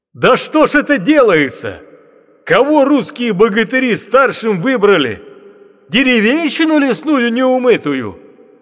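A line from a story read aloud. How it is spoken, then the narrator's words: Loud yelling. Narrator (Russian): Тут Алёша криком закричал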